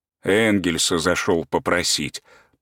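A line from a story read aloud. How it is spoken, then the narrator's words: Muttered. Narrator (Russian): пробормотал Петр Алексеевич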